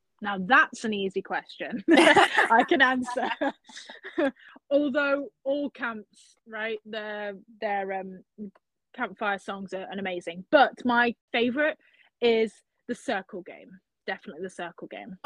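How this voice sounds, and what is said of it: British accent, crisp T's. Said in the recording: “my British accent. So, you know, with the T's, I have to pronounce the T's”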